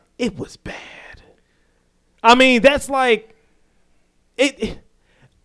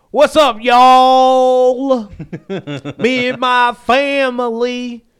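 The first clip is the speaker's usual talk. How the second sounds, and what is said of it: Exaggerated fake Southern country accent. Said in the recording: “he put on that fake country accent ... That's not it. That's not the accent we have.”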